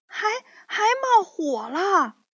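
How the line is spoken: Loud clamoring. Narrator (Chinese): 可可猪也嚷嚷着说

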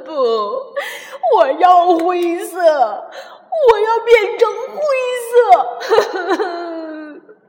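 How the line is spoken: Wailing. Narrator (Chinese): 哈瓦尔却嚎啕大哭起来

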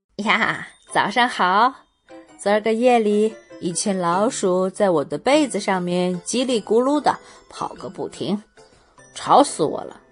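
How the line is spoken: Cheerful, smiling. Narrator (Chinese): 纳扎尔笑眯眯地说

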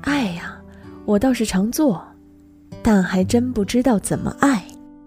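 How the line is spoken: Sighing. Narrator (Chinese): 他叹了叹气

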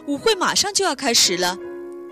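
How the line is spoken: Calling out. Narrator (Chinese): 他朝安博喊道

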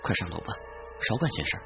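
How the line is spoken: Low voice. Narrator (Chinese): 妻子低声说

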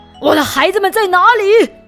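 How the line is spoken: Angry roar. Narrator (Chinese): 山羊爸爸 怒吼着

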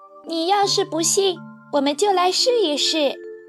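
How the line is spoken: Old man exclaiming. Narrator (Chinese): 爷爷叫了起来

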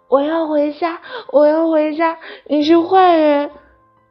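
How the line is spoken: Crying, shouting. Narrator (Chinese): 蒙娜只是一个劲儿的哭，最后她大叫

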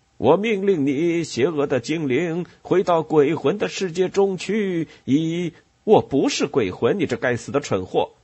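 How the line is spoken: Angry shout. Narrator (Chinese): 杰克叫着，感到气愤

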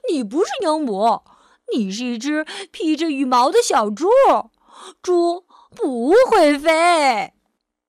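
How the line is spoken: Laughing mockingly. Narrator (Chinese): 猴子大笑着说

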